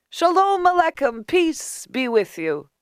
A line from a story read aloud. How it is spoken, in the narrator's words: The beggar cried